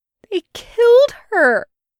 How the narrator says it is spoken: Jester wails

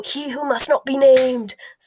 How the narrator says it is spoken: snarled Fudge

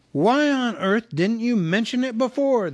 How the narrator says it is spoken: they cried

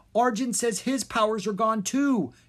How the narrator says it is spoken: she cried

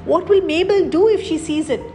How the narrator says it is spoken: cried despairingly

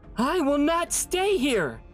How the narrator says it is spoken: she said fiercely

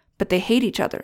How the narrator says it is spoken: said Deena

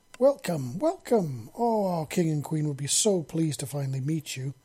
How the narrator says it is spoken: the first Xeno, a female, said happily

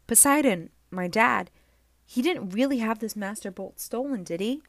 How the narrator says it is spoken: Chiron sighed

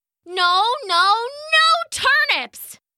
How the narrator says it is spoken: came the shout again

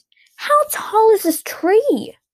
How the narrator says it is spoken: Agatha shrieked

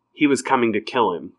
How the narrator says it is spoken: Kate said

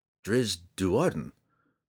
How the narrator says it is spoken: the drow replied evenly, taking some hope in the fact that he could at least communicate with this adversary

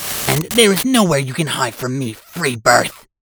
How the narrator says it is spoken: hissed

